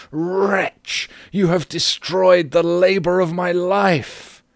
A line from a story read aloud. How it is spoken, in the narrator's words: he shrieked aloud